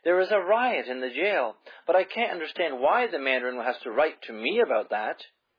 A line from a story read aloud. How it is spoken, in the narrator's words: she exclaimed in surprise